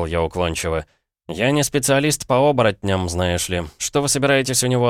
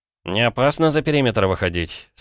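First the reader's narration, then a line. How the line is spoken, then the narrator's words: Gloomy question. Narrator (Russian): спросил я мрачно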